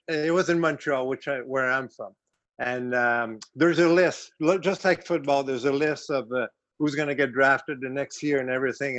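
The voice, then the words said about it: French Canadian accent. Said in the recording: “I'm French Canadian. If you guys didn't pick on my accent yet ... I thought it was South Jersey. I thought it was like South Jersey.”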